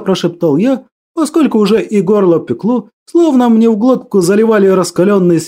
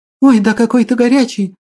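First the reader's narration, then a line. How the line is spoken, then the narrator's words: Frightened. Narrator (Russian): Испуганно произнесла она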